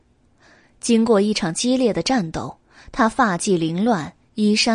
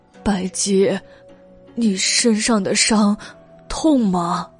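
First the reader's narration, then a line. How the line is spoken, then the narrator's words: Trembling voice. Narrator (Chinese): 袁耀颤声道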